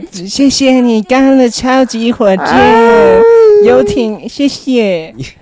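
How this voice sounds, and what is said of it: Coy, cutesy, bashful voice. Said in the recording (Chinese): “很嗲很娇羞的声音说”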